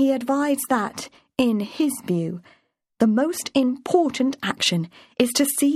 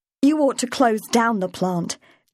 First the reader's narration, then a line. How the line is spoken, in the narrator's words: told angrily